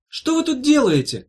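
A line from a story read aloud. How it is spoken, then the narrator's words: Shouting through window. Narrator (Russian): закричала Ирка в окно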